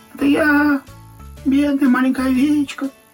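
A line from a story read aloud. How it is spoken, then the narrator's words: Thin disguised squeak. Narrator (Russian): тонким чужим голосом пропищал волк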